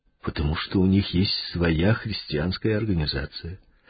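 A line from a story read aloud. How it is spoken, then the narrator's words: Calm. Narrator (Russian): спокойно ответил Павел Степанович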